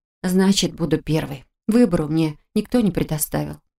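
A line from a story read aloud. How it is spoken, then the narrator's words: Sullen mutter. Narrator (Russian): хмуро буркнул я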